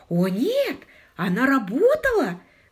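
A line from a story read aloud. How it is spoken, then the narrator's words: Exclaiming. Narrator (Russian): воскликнула мисс Тарант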